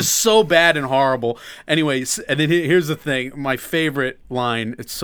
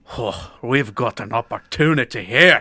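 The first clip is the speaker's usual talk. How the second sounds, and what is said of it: Imitated brogue, Dougray Scott's villain. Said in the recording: “Dougray Scott, the bad guy, talks to himself ... in exactly that brogue.”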